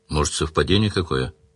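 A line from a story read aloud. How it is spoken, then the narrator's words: Glum, doubtful. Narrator (Russian): уныло предположил Сварог, сам в совпадение не веривший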